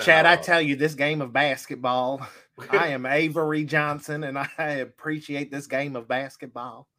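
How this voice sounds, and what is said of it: Avery Johnson impression. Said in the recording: “your Avery Johnson imitation”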